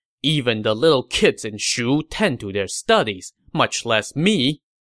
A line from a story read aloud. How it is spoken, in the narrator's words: he said sternly